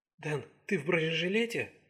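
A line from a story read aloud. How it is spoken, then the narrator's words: Whispered question. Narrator (Russian): шепотом спросила молодая женщина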